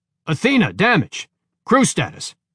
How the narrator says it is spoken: Simmons barked into his command headset

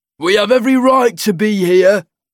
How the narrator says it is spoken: yells the ringleader

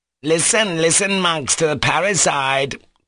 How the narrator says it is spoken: cried Fyodor Pavlovich

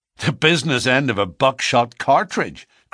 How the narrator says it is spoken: cried the man with a loud laugh

